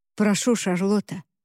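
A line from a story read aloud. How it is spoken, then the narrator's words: Plain. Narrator (Russian): сказал Уильям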